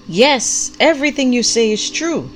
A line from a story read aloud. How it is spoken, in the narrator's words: the prophet called out with equal vigor